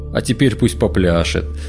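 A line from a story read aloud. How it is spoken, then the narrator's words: Laughing darkness. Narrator (Russian): засмеялся мрак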